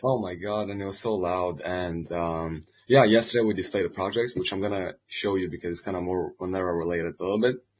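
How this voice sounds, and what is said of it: Strained, lowered voice. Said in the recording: “My voice went down a couple places. ... we can see that.”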